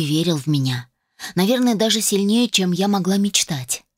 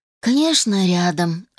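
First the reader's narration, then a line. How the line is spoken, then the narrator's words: Sighing. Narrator (Russian): вздохнул Питер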